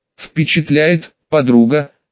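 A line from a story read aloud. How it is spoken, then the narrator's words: Hoarse rasp. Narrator (Russian): прохрипела Грес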